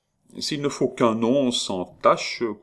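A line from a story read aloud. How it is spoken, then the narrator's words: Noticeably softened tone. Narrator (French): commença le bon Jaffré, d'un ton sensiblement radouci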